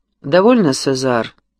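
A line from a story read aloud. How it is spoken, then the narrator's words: Dry, curt interruption. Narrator (Russian): сухо перебила его госпожа де ла Флот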